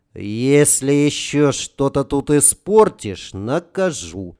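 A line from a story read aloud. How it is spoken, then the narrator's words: Plain. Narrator (Russian): сказал Женьке Романов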